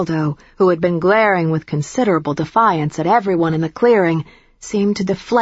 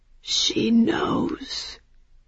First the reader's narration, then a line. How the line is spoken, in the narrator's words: the albino vampire said, and the only way I can describe his voice is heartbroken